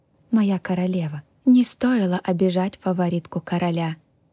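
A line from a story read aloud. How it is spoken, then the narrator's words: Embarrassed mumble. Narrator (Russian): смущенно пробормотала Милена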